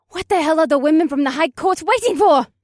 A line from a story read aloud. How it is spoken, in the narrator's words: Akira screamed with furious dark eyes